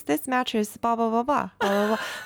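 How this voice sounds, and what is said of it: Flat monotone reading voice. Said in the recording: “Monotone voice... Like he hated it.”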